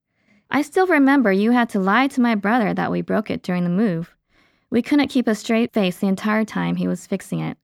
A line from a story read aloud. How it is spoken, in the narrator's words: she giggled